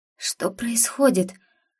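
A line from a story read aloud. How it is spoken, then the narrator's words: Hoarse question. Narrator (Russian): Осипшим голосом спросила я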